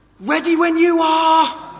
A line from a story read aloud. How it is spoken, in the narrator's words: the cameraman on the hill, he shouted